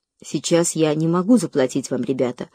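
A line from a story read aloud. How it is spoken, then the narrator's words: Calm continuation. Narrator (Russian): спокойно продолжал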